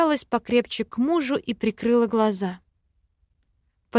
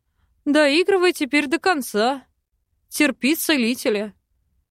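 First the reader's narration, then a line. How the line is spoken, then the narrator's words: Laughing. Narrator (Russian): рассмеялся эльф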